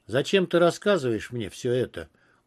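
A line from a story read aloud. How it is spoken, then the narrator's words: Weary. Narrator (Russian): устало поморщился Руперт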